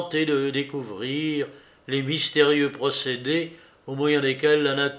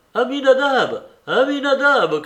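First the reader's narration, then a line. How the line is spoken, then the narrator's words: Shouting. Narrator (French): cria-t-il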